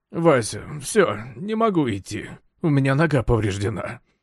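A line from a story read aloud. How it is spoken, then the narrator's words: Moaning. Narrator (Russian): простонал Брехт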